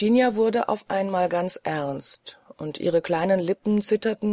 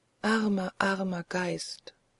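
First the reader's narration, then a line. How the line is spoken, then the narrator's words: Soft-spoken. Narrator (German): sprach leise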